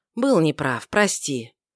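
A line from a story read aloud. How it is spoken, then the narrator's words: Sighing. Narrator (Russian): вздохнул я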